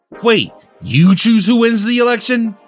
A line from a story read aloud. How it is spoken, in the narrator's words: Dib screamed